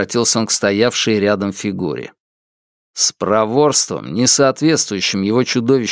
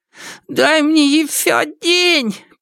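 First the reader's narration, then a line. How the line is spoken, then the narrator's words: Hoarse. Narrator (Russian): прохрипела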